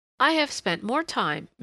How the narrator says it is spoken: Miss Jeffries was confiding brightly

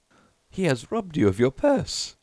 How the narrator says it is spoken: they laughed

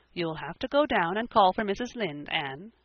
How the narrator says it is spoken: she said

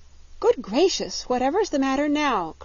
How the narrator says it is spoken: cried Dorothy

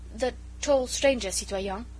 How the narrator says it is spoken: he stammered

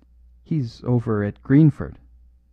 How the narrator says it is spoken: faltered the curate

